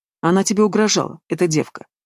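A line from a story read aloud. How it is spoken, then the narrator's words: Calm question. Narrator (Russian): спокойно спросила она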